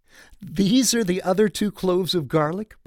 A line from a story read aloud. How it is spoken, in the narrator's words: Barb giggled